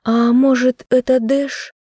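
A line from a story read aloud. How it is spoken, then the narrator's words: Upset sigh. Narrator (Russian): расстроенно вздохнула Айза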